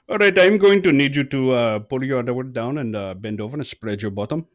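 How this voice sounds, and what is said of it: Put-on heavy Indian accent. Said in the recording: “still had a very heavy Indian accent.”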